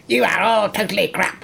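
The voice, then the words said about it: Put-on spider character voice. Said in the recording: “I can't really do the spider voice ... Quite close, actually.”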